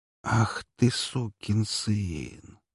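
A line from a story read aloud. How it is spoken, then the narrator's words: Tearful whisper. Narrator (Russian): прошептал я, чуть ли не со слезами на глазах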